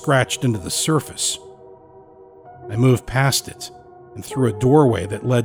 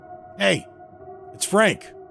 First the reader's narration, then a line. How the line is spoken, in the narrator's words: called out